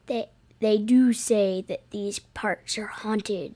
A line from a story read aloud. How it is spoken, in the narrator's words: says, lowering his voice